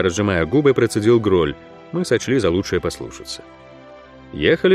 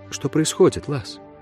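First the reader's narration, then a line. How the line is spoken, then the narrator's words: Quiet question. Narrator (Russian): она тихо спросила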